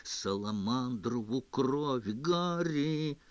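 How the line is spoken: Groaning, exasperated. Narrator (Russian): застонала Гермиона

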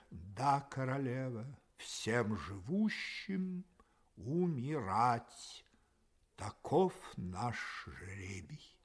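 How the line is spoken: Slow reproachful answer. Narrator (Russian): медленно с упреком ... ответил, слегка покачивая головой

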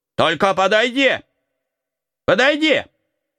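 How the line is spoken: Shouting. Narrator (Russian): закричал он

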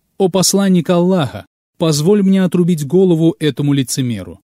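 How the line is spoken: Exclamation. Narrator (Russian): Омар воскликнул

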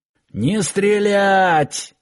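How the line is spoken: Yelling. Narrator (Russian): заорал Киркин

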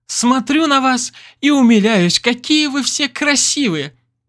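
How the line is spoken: Squeaky cuckoo voice. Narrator (Russian): пропищала кукушка

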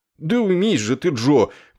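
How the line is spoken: Meek pleading. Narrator (Russian): кротко взмолился он

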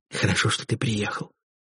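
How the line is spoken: Whispered. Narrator (Russian): шепнула она

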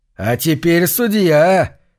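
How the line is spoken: Happy shout. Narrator (Russian): счастливо крикнул Карл

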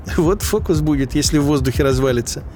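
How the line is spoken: Giggling. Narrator (Russian): хихикнул один

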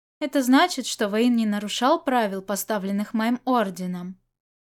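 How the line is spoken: Calm reply. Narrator (Russian): спокойно ответил глава Гусулань

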